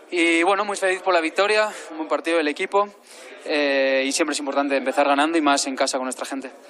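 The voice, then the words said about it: Spanish with slight Mexican accent. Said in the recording (Spanish): “emocionado y con cierto deje, ¿eh? Ya mexicano ... ha cambiado totalmente su tono, su acento”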